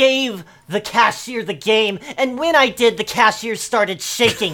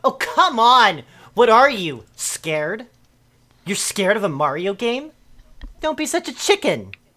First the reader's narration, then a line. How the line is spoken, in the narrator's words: replied